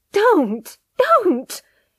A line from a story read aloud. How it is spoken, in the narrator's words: cried, her face dead white